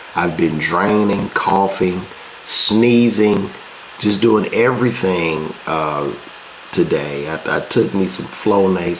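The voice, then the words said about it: Congested, allergy-stuffed voice. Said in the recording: “this pollen is kicking my ass ... these allergies, it is kicking my ass. You could hear it in my voice.”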